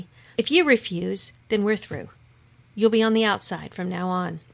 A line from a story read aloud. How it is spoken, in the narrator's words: Jesus answered firmly